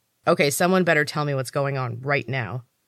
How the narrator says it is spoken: said firmly

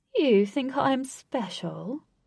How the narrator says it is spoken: said with a purr

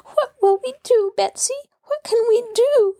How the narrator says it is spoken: she wailed

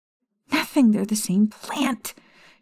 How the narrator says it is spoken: She shrieked inside of her head

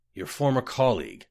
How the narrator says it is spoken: murmured another of the Cyrodiils

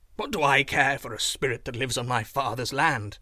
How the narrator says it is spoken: I answered with a sneer

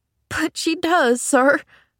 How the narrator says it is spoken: sobbed Nancy

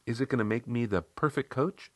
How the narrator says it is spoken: she asked

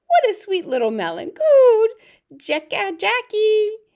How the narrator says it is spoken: He squealed

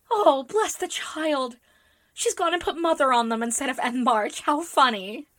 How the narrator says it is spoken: cried Joe

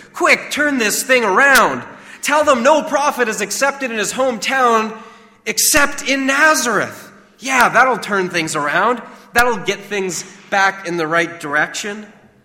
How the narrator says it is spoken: James silently pleaded with him

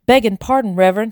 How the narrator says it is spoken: he shouted

